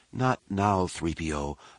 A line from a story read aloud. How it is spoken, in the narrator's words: Leia said weakly